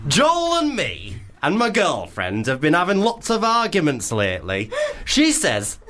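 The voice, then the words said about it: Attempted Leeds accent. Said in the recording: “should we do a Leeds accent? ... I'm not really sure of the regionals of anything above the M25. So I'm sorry if it doesn't sound Leeds. Maybe it'd be Hull.”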